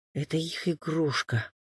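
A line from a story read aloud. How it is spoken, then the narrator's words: Lost father's whisper. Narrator (Russian): прошептал потерянный отец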